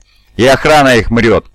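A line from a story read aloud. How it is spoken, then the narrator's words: Ghost speaking after laughter. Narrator (Russian): отсмеявшись, говорит молчавший до этого призрак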